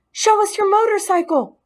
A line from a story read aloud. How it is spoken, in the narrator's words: they squeaked